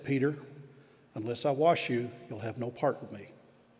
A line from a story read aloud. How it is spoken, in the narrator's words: quietly said